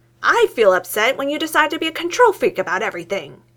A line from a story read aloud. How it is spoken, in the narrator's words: Newton says, his voice rising